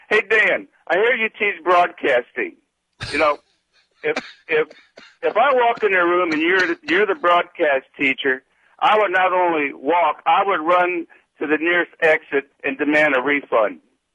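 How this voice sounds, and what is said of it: Imitates another person's voice. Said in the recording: “my impersonation of Dan”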